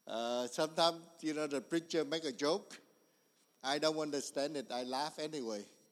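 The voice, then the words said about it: Strong non-native English accent. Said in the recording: “I butcher English ... My accent is so perfect”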